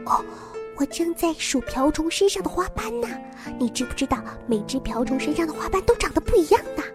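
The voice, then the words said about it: Speaking softly, almost whispering. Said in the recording (Chinese): “小声地”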